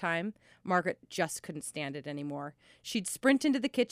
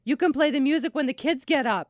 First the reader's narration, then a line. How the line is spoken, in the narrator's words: she'd say loudly, in my face